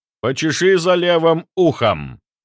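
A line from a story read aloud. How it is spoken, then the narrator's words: Commanding tone. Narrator (Russian): сказал я повелительным тоном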